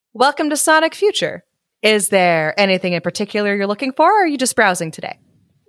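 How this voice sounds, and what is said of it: Bright customer service voice. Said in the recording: “Best customer service voice.”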